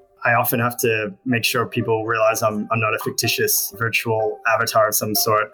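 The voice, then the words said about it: Australian accent. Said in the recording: “I was born in Australia. I don't know if you noticed this, an accent.”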